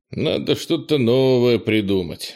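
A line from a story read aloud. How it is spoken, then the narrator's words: Grumbling. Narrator (Russian): ворчал он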